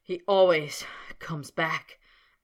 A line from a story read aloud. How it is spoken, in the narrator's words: panted Snape, grinding his teeth together